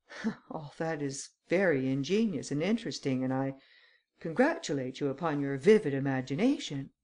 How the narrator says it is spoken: There was a touch of irony that seemed rather hostile than sympathetic, but the Count affected to laugh as he said

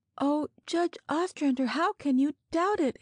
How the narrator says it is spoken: She cried, her eyes swimming with tears

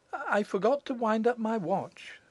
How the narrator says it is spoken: she said

